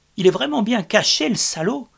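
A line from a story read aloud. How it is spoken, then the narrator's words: Exclaimed. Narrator (French): s'exclama Michel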